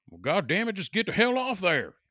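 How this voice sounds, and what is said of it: Imitates strong West Virginia accent. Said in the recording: “he was from West Virginia ... he had the strongest accent”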